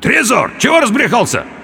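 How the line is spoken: Indistinct wheeze. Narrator (Russian): Я попытался крикнуть ему, но смог выдавить из себя лишь невнятный хрип

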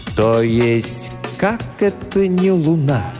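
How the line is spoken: Said slowly. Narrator (Russian): медленно произнес

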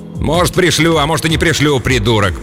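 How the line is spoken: Grumble. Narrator (Russian): проворчал оружейник

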